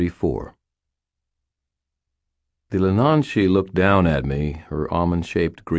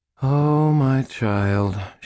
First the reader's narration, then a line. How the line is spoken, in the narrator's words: breathed after a moment